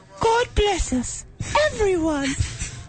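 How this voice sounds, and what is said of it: Failed Cockney accent drifting Irish. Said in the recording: “I was going for a Cockney accent, and then it went horribly wrong. And I was like, well, there's Irish people around. ... I really like the leprechaun you had going on there.”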